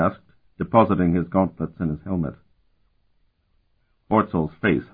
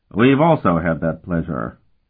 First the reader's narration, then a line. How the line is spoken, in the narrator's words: Colton said dryly